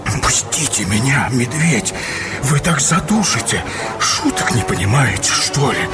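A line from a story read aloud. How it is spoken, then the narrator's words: Terrified whisper. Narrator (Russian): Вася побледнел, как смерть, и прошептал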